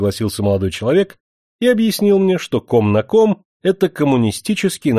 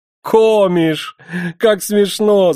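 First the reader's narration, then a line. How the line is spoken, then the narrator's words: Laughing young man's shout. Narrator (Russian): закричал молодой человек по-немецки и засмеялся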